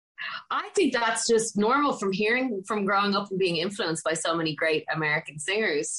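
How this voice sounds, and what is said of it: Dublin Irish accent. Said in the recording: “you get my accent in the song ... That's a very Dublin way of saying it”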